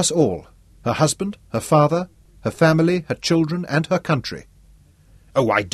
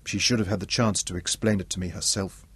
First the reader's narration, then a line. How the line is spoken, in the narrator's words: Isabella said quietly